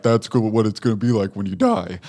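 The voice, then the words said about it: Imitation of a friend's voice. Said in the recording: “That's a really good impression, actually.”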